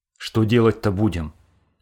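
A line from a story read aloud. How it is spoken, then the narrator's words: Agitated shout. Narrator (Russian): прокричал взволнованный Хохлов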